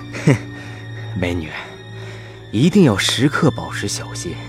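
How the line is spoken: Soft. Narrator (Chinese): 他轻声说

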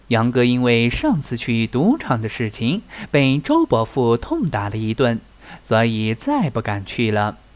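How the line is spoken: Teasing. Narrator (Chinese): 李四取笑道

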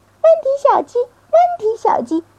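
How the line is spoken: Angry mother hen crying. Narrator (Chinese): 鸡妈妈生气的叫道

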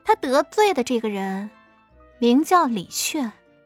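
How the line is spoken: Flat, indifferent. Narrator (Chinese): 艾云珍淡淡的说了句

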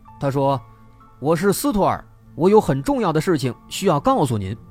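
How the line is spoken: Hesitant calling out. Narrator (Chinese): 斯托尔一边敲门一边喊

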